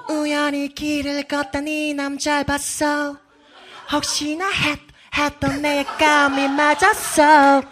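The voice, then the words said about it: Sung imitation of another singer's voice. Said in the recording (Korean): “성대모사가 ... 잘하시네요 ... 이건 모창이죠, 모창”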